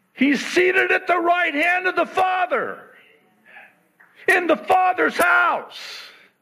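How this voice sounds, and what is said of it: Yelling loudly. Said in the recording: “I'm sorry I'm yelling. Everybody says, Stop yelling ... We yell”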